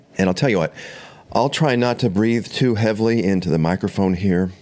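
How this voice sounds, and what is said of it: Sick, under-the-weather voice. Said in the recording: “As you can probably tell from my voice here, I'm definitely under the weather... So I definitely have the flu.”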